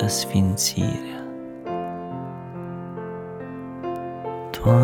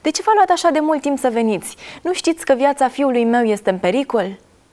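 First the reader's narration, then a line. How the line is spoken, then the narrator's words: Father shouting. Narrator (Romanian): tatăl a strigat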